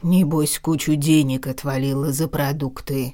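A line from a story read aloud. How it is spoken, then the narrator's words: Grumbling. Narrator (Russian): ворчал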